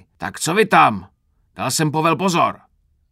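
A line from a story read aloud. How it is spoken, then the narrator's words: Roaring shout. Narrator (Czech): Zařval Krpata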